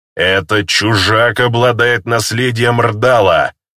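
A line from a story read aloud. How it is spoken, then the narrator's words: Father's growl. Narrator (Russian): прорычал его отец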